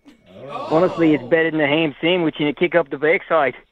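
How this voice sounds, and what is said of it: Put-on Irish accent. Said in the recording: “you're starting to sound a little Irish ... I sound a bit Irish ... Can you say something else in that accent,”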